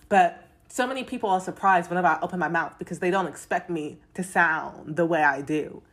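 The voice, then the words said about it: Mixed London and American accent. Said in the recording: “I was born in London. I grew up in London, but then I moved to America. So I got this funny accent.”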